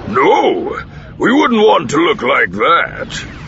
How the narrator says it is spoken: Booster growled

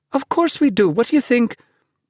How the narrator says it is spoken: Impatiently, Naomi said

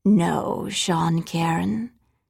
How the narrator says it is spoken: she said evenly

